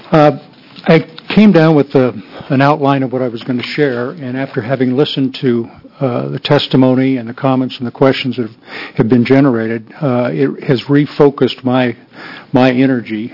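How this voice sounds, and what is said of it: Voice affected by illness. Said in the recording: “Excuse my voice. I'm recovering.”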